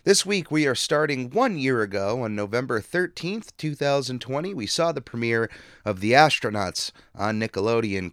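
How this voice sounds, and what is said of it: Hoarse, worn-out voice. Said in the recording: “my voice has been absolutely shot ... if my voice gets worse as the show goes on”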